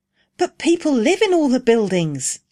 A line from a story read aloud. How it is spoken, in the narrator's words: exclaimed Rose